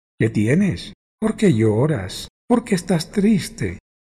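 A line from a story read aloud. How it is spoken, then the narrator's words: Emotional exclamation. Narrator (Spanish): exclamó con emoción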